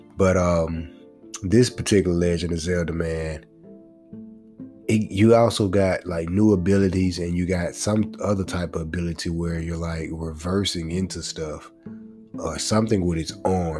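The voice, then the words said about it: Congested, slightly off voice. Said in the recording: “my voice is a little bit off, man, because I'm a little congested”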